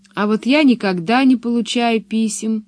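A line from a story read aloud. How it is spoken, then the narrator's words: Sad. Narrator (Russian): грустно сказала Пеппи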